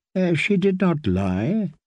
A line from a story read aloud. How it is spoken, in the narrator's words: the priest said, chuckling